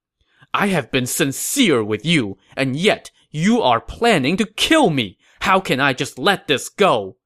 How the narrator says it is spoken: Gao Ding said angrily

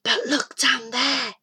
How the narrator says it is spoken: whispered Kieran

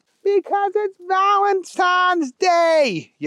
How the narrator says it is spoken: yelled Keith

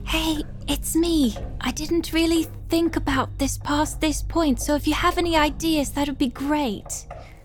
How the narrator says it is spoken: I'll whisper into her ear

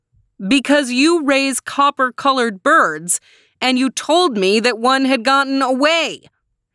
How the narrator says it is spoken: he screamed

